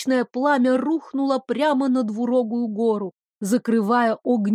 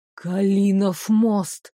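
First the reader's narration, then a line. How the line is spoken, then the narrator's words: Distant whisper. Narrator (Russian): донесся шепот Девислава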